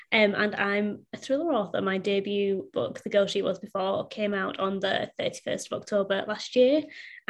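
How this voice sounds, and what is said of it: Northern English accent. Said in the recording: “originally from Bradford in the north of England, hence the accent”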